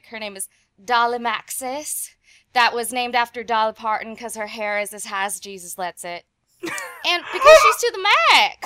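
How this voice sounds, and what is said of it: Put-on deep Southern accent. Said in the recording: “I'm gonna give y'all my best deep Southern accent”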